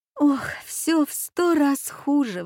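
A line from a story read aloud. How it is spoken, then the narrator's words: Sighing. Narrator (Russian): вздохнула Аня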